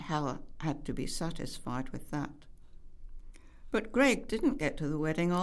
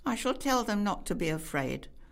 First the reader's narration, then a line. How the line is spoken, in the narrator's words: said Hal firmly